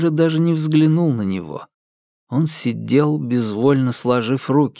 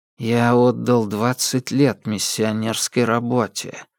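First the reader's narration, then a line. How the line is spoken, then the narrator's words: Flat colorless voice. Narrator (Russian): повторил Феррейра бесцветным голосом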